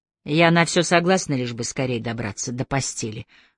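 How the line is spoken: Grumbling mutter. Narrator (Russian): пробурчала Кэти

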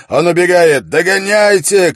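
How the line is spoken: Shout. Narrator (Russian): крикнул Холт

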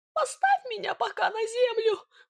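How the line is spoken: Pleading. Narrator (Russian): взмолился Сидор

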